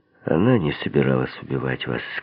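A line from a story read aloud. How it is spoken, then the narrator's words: Gentle. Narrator (Russian): сказал я по возможности мягко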